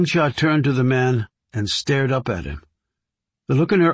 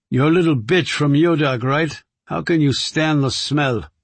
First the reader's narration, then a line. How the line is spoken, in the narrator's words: the other man said sneeringly